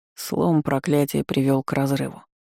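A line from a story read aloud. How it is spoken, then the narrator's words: Grumbling. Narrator (Russian): проворчал маг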